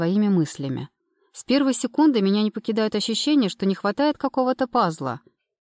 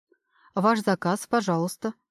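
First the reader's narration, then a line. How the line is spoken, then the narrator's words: Waiter interrupting. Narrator (Russian): прерывает официант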